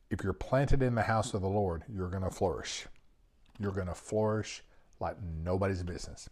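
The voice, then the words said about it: Texas accent. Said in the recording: “I'm in Texas, if you couldn't tell by the accent.”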